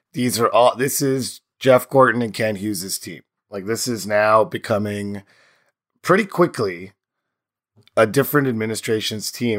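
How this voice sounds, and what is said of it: Strained, worn-out hoarse voice. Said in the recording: “My voice is in shambles ... lots of screaming. So please apologize my voice. ... apologize for my voice”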